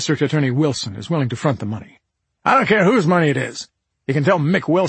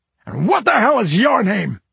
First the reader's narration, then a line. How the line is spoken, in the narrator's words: Rafferty bellowed